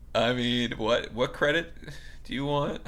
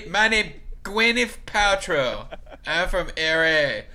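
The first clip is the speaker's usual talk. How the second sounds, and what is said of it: Put-on Chinese accent. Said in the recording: “with a Chinese accent”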